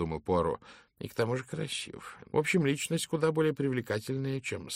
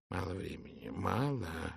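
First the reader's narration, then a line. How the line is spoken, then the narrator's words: Mutter. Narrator (Russian): бормотал он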